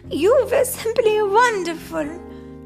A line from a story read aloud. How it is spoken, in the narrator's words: she cried